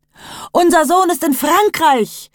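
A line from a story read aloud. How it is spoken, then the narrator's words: Mother screams. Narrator (German): schrie die Mutter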